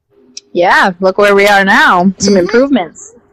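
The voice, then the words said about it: Condescending teacher voice. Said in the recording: “Use my teacher voice there for a second”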